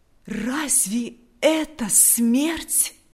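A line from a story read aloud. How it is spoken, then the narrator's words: Jubilant exclamation. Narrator (Russian): воскликнул в ликовании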